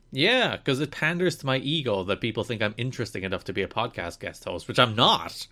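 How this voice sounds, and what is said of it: Mild Irish accent. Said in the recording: “They just need another accent ... I sound exotic ... I don't even have a particularly strong Irish accent, but they're still like, hey, he sounds different ... I feel like your Irish accent has diminished slightly ... I sound like some neutral Atlantic”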